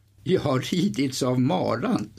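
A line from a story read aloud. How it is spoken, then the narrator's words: Laughing reply. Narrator (Swedish): svarade skrattande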